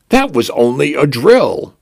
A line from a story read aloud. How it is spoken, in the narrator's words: I announced cheerfully